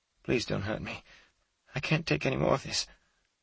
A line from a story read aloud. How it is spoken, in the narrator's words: Maria Jane pleaded in a hoarse whisper